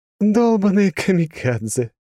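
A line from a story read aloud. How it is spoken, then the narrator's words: Charming woman's laugh. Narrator (Russian): чарующе засмеялась женщина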